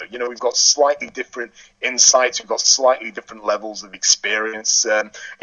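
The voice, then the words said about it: English accent. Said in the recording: “we've got myself ... It's good to have an English accent”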